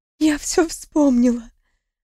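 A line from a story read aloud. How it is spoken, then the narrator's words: Hoarse, strained voice. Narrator (Russian): Сорванным от крика голосом прохрипела в ответ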